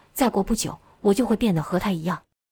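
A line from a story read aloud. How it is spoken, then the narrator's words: Terrified trembling voice. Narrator (Chinese): 但盖瑞就吓死了，颤声道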